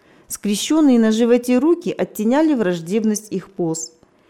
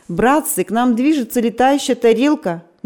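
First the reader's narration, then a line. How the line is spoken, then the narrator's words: Excited exclamation. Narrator (Russian): Не менее возбужденно воскликнул Роман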